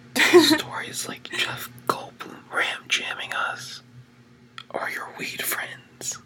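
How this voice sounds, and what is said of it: Whispering. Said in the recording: “Why did you have to whisper that to me?”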